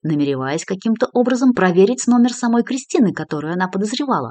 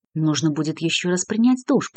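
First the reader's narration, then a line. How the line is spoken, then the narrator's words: Muttering. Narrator (Russian): пробормотал Дронго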